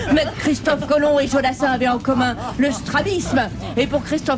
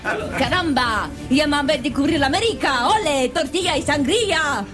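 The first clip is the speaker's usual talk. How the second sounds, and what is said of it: Put-on Spanish accent. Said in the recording (French): “Mais c'est quoi cet accent espagnol, capitaine?”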